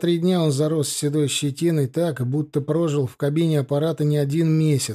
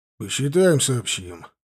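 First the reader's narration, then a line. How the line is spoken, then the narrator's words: Grumble. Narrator (Russian): буркнул Фрайер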